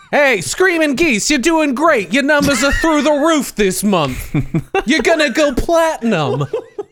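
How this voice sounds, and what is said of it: Put-on old Canadian accent. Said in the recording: “Is that your Canadian impression? ... This is what old Canadians sound like, man.”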